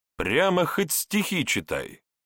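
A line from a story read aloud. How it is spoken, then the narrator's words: Deliberately loud, wistful complaint. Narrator (Russian): Пожаловавшись нарочито громко с тоской, Вожников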